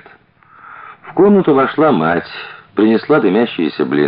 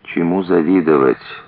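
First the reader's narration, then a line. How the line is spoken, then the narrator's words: Sighed. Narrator (Russian): вздохнула Зина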